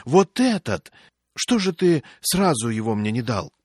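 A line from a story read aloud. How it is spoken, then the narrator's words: Joyful shout. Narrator (Russian): радостно кричит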